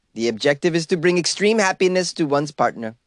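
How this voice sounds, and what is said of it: Poor put-on Swedish accent. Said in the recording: “How about that for a perfect Swedish accent ... That was the worst”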